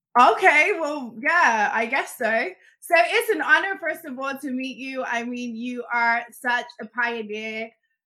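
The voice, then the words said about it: British accent. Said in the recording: “you're gonna kill me with the accent. I am a sucker for the uh, British accent.”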